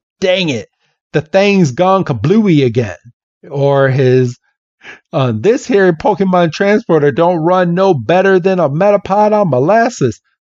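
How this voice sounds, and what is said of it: Put-on Southern accent. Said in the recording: “that southern accent”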